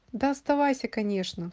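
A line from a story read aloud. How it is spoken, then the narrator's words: Sighing. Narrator (Russian): вздохнул Иван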